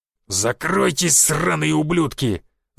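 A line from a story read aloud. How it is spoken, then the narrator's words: Growled. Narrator (Russian): зарычал он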